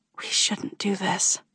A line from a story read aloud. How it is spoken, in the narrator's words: whisper, trying one last time to stop this from happening